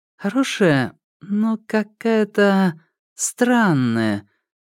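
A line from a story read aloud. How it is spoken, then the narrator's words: Drawling. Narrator (Russian): протянула Джада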